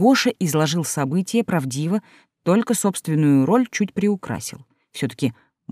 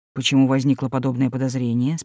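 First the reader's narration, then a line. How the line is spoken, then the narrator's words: Plain. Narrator (Russian): спросил Георгий Георгиевич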